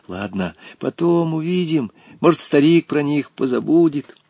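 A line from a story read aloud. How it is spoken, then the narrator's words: Quiet reply. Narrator (Russian): Волька тихо отвечал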